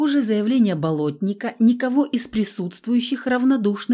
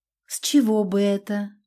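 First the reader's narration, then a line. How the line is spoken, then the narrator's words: Blond man, soft question. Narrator (Russian): мягко спросил блондин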